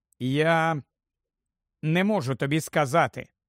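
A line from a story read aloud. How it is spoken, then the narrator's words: Plain. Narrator (Ukrainian): відповів Гаррі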